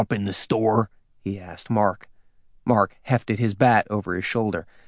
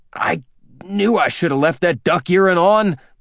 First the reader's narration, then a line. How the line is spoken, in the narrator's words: Mark snapped